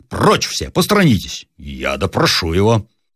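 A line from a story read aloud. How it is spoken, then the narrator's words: Pompous interrupting soldier. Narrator (Russian): прервал важным голосом гренадер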